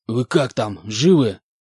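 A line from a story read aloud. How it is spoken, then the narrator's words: Hoarse rasp. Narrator (Russian): прохрипел Спартак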